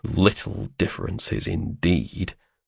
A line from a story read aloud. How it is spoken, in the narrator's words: I muttered